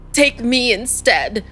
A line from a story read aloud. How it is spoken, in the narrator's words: he cried out, his voice cracking